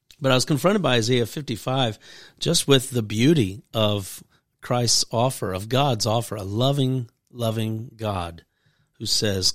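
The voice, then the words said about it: Deep husky voice from a cold. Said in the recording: “I'm also getting over a little cold. I got a radio voice.”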